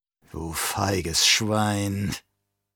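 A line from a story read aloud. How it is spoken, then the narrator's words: Dying man's groan. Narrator (German): stöhnte der Sterbende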